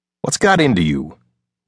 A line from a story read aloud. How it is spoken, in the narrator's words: Wes asked